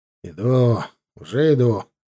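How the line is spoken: Grumbling. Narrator (Russian): проворчал я

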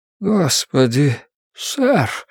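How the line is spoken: Faint breathless gasp. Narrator (Russian): слабо выдохнул Кэл

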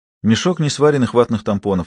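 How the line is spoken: Plain. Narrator (Russian): ответила Беата

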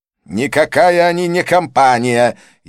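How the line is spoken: Furious shout. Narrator (Russian): яростно выкрикнул Санджай

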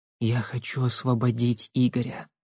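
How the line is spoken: Whisper. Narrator (Russian): шепотом сказала

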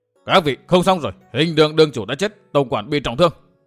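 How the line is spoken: Old men calling loudly. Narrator (Vietnamese): hai hắc y lão nhân cao giọng gọi

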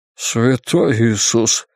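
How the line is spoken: Breathless exhale. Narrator (Russian): выдохнул Бейкер

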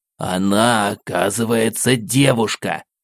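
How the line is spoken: Deliberately loud whisper. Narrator (Russian): нарочно громко шепнул мне Максим

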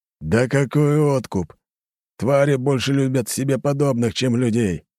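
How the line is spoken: Growling commander. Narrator (Russian): рыкнул командир наемников

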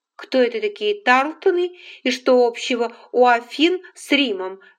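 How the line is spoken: Plain question. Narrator (Russian): спросила она

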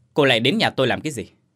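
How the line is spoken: Irritated shout. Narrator (Vietnamese): Sẵn bực trong người, hắn quát

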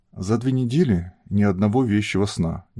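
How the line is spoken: Displeased, heavy sigh. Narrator (Russian): недовольно проговорил Серый и тяжко вздохнул

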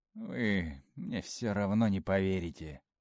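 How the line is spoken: Weary speech. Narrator (Russian): устало сказала Арина

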